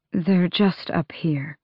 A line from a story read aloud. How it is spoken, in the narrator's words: Gavriel said quietly